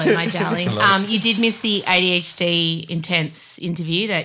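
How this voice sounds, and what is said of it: Usual voice. Nothing is said of it.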